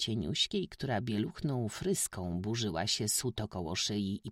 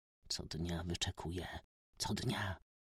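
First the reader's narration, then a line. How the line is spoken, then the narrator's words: Quiet whisper. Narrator (Polish): szepnął cicho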